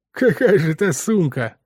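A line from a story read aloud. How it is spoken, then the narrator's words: Snorting. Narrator (Russian): хмыкнул Скотт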